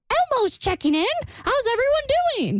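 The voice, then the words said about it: Elmo character voice impression. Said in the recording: “Was that a good impression? ... It's an Elmo impression.”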